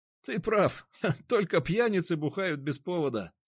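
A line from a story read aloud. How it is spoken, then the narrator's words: Laughing. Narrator (Russian): рассмеялся Никита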